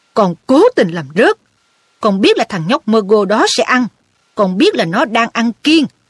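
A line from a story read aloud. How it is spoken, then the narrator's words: Roaring man. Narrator (Vietnamese): Ông Weasley gầm lên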